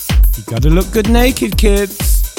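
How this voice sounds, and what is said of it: Good imitation of another person's voice. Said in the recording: “doing a very good Gok One impression.”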